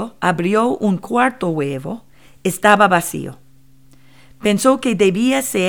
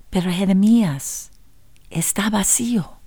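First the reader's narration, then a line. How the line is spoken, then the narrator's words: Quiet voice. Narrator (Spanish): La maestra dijo en voz baja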